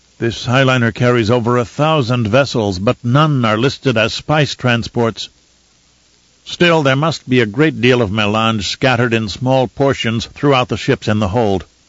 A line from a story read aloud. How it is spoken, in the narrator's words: Gurney said